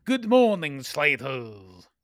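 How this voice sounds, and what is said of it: Scottish accent imitating Alan Cumming. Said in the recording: “Is that your Scottish accent?”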